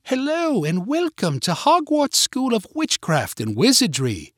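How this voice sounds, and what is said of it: Put-on British accent. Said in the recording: “doing her best British accent”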